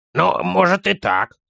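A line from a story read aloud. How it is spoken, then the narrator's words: Grumbling child. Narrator (Russian): проворчал малыш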